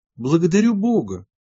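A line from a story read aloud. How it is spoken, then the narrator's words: Exclamation. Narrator (Russian): воскликнул он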